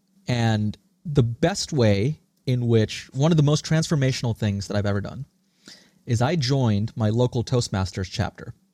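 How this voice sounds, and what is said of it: American accent. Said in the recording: “this accent, this American accent that I have, was a learned trait”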